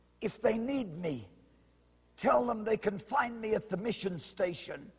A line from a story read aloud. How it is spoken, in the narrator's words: Through thick, swollen lips, whispered